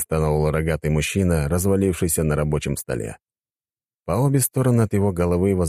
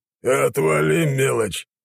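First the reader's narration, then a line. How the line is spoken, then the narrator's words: Grumbling. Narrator (Russian): проворчал он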